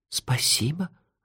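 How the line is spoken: Moved whisper. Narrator (Russian): растроганно прошептала Техи

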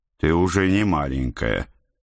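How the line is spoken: Weary. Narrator (Russian): устало начал я

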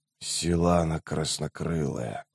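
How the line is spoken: Muttered. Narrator (Russian): пробормотал Рейст

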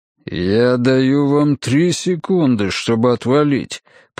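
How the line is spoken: Through clenched teeth. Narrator (Russian): процедил Ганс сквозь стиснутые зубы

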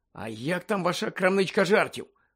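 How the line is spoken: Mutter. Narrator (Ukrainian): пробурмотів Гаррі

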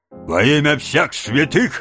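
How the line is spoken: Barking policeman. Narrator (Russian): рявкнул на стражника полицейский

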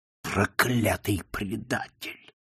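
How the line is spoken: Growl through clenched teeth. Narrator (Russian): сквозь стиснутые зубы прорычал МакДжинти

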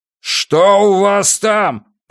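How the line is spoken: Roared. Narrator (Russian): проревел Уайерман

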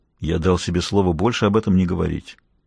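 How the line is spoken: Muttered. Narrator (Russian): Он пробормотал

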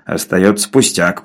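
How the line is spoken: Grumbling. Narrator (Russian): проворчал Навага

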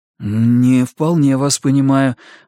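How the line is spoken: Forced out. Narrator (Russian): выдавил я

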